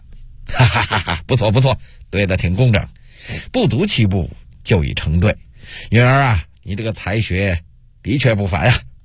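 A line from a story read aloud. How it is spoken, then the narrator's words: Laughing. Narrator (Chinese): 朱元璋……笑了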